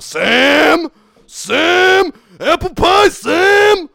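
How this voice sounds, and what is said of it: Yelled impression of a TV character. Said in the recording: “I can actually do a pretty good impression of... Of Dean from Supernatural. All you gotta do is yell one of the other characters' names”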